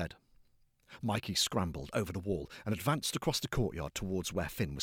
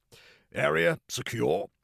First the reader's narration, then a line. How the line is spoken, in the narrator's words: he announced rather gruffly